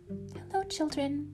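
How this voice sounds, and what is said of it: Sweet voice. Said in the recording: “in a sweet voice”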